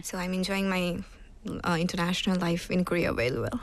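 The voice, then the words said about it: South Asian English with British twang. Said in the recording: “You sound very British... Parts of your accent, I'm like, oh, it's very British... a little bit, yeah... I can hear like lots of British twang”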